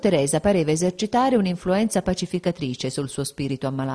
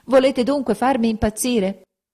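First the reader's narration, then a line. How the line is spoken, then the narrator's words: Desperate shouting. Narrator (Italian): gridava con le mani in testa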